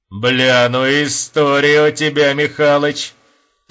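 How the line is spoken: Thin high laughter. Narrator (Russian): Тоненько расхохотавшись

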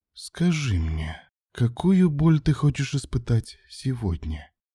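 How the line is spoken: Woman whispering in ear. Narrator (Russian): прошептала женщина на ухо

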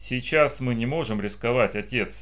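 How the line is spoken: Calm. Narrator (Russian): спокойно добавил

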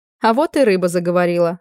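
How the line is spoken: Laughing loudly. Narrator (Russian): расхохоталась я

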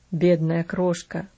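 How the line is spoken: Father moaning. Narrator (Russian): простонал отец

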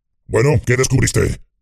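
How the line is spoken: Growled. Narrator (Spanish): gruñó la voz de Ugluk

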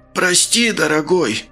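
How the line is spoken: High, hoarse, husky voice. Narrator (Russian): Голос у толстяка оказался неожиданно высоким и сипло-простуженным

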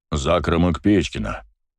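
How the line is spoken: Deep bass voice. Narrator (Russian): пробасил мужчина

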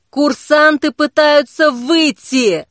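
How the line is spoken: Shout. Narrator (Russian): тут же закричал черный огонь

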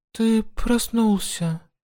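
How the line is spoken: Tender. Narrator (Russian): нежно сказала она

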